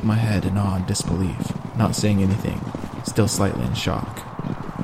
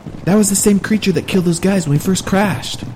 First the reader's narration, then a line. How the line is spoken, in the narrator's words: yelled out Larry, as he struggled to hurry his comber beside us